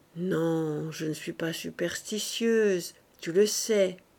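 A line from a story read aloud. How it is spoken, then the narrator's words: Murmured. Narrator (French): murmura Marthe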